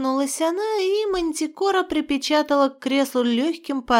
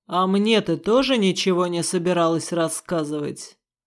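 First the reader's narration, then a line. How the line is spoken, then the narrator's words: Growl, father. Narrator (Russian): прорычал мой отец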